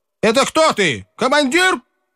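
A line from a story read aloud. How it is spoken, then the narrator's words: Sharp, clipped shout. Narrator (Russian): крикнул Кожин рубящим голосом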